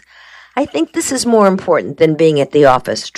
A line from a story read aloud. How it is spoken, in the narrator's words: Trag said